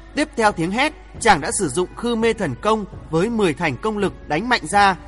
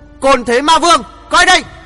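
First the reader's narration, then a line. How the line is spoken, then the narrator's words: Thunderous murderous roar. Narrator (Vietnamese): nét mặt đằng đằng sát khí, quát lên như sấm nổ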